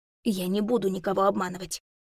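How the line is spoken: Whisper. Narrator (Russian): шепнула я

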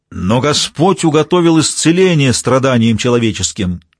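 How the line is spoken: Loud yell. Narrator (Russian): Келли завопил так, что мы с доктором Ди подпрыгнули

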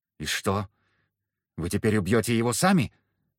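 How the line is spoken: Hoarse, tearful question. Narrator (Russian): спросила хриплым от слез голосом

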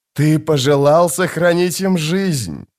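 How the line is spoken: Gleeful hiss. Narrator (Russian): с ликованием прошипел престол тени

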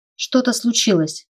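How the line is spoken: Uncertain mutter. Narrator (Russian): пробормотала я, неуверенная

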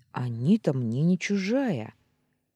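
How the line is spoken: Indignant interruption. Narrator (Russian): возмущенно перебила я

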